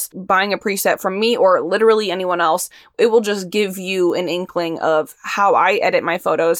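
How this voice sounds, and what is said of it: Very fast speech. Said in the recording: “I'm talking so fast”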